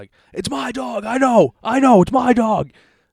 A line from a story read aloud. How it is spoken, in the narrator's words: they keep yelling it